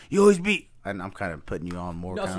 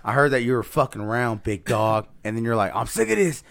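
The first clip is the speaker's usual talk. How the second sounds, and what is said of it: Put-on Southern twang. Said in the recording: “I don't know why I'm putting that southern twang on it”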